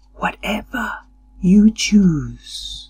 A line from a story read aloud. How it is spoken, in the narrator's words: the wild woman whispered